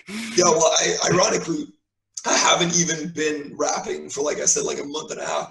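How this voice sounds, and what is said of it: Strained, worn-out voice. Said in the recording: “my voice is fucked... your vocal cords get quite a workout”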